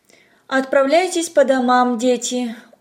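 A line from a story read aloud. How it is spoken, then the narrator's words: Tired teacher. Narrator (Russian): устало сказала учительница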